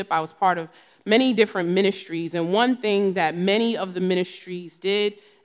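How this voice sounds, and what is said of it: New Jersey accent. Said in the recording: “So many of you know I am from New Jersey. You'll hear it in my accent.”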